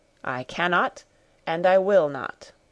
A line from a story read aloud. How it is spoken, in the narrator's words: he replied solemnly